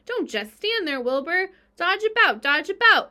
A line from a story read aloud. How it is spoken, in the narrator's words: cried the goose